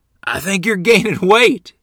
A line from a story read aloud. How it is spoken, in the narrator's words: he said laughingly